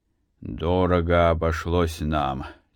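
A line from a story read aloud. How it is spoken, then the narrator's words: Heavy sigh. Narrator (Russian): тяжело вздохнув, проговорил Матвей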